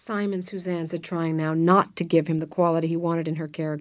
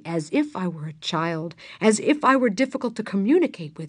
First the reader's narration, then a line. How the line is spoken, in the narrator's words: Suzanne repeated indignantly